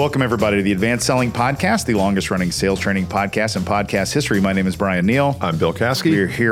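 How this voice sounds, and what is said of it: Usual voice. Nothing is said of it.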